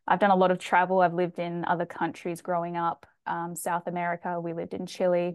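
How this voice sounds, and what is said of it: Australian accent. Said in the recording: “i am from australia as you can tell from my accent”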